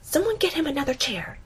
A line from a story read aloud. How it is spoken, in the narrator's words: she hisses